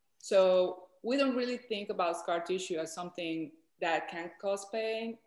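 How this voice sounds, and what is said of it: Colombian-accented English. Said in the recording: “she has this beautiful accent from Colombia”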